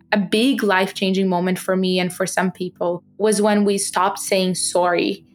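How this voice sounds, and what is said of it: Non-native English accent. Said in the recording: “I am proud of my accent. I have an accent”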